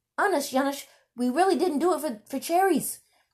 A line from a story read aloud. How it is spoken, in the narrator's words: Dirk pleaded